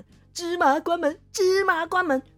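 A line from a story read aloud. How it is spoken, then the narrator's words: Joyful shout. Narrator (Chinese): 开心的不得了，转头大喊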